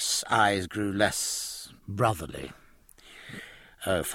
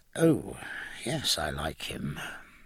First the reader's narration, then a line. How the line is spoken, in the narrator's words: he said hoarsely